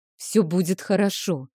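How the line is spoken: Whisper. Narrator (Russian): шептал Рик

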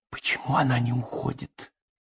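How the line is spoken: Whispered question. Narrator (Russian): шепотом спросил Дзержинский у Россела

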